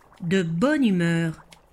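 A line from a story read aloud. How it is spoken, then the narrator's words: Plain. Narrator (French): demanda Scully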